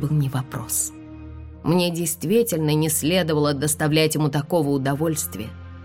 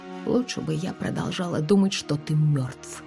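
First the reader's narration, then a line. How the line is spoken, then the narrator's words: Whisper. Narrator (Russian): прошептала я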